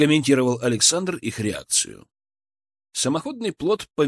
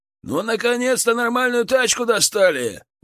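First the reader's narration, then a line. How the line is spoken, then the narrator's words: Shouted out. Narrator (Russian): выкрикнул кто-то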